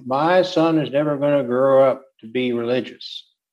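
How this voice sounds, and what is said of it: Put-on Southern accent. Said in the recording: “I did that in a Southern accent”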